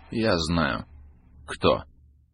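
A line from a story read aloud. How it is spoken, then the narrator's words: Dry reply. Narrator (Russian): Так же сухо ответил щенок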